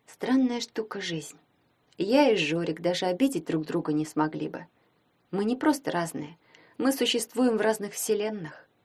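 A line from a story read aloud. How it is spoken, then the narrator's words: Unspoken thought. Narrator (Russian): подумала Таня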